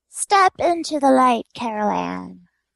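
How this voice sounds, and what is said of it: Poor Zelda Rubinstein impression. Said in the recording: “terrible Zelda Rubinstein impression”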